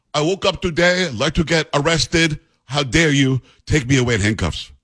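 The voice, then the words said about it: Exaggerated put-on Swedish accent. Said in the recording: “That was my Swedish accent, by the way. ... That's really bad. ... It was pretty good. ... It's as if I'm from Sweden.”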